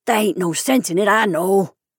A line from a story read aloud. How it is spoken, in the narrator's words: he mumbled apologetically